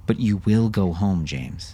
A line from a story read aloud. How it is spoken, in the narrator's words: he said to his son, now in a far calmer voice